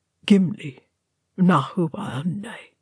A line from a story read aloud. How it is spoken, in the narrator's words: he murmured